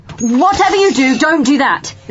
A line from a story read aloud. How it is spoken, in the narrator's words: the doctor yelled